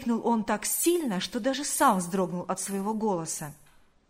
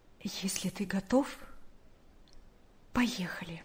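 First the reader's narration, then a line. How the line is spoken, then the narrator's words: Quiet. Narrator (Russian): тихо сказала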